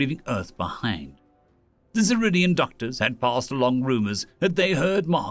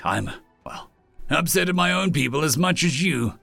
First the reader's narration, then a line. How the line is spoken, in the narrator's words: Marsan growled